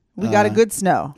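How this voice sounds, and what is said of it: Put-on Russian accent. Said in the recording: “I'm using my Russian accent”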